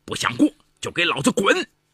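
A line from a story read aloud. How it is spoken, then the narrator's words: Furious roar. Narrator (Chinese): 一直忍气吞声的杨树标终于忍无可忍，吼道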